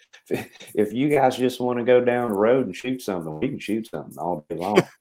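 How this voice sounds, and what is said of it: Noticeable regional accent. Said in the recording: “Is that is that your real accent coming out? ... that's the people that I grew up with ... You ain't from around here”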